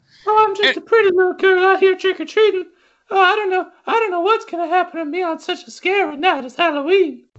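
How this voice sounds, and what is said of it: Little girl voice. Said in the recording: “who has a little girl voice for some reason.”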